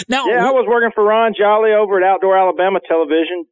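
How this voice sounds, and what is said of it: Slight Southern American accent. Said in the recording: “Do you know you have an accent? ... he's got a little bit of that southern accent”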